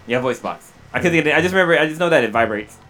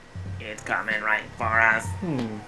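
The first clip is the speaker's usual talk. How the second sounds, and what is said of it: Robotic voice-box voice. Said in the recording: “robot voice”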